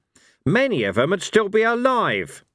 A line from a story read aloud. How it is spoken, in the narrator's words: snapped Cohen